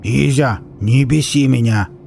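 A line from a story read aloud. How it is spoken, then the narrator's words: Growling. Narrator (Russian): Зарычал Виллис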